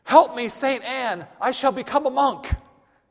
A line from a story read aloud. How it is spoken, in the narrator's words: as he fell to the ground, he cried out in panic